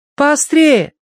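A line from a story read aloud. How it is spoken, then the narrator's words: Shouted after someone. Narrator (Russian): крикнула вслед Киврин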